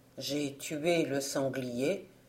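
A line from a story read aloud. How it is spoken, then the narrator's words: Modest tone. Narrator (French): répond d'un ton modeste l'étranger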